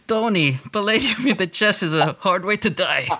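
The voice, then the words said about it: Put-on Russian accent. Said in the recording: “I always give him my Russian accent.”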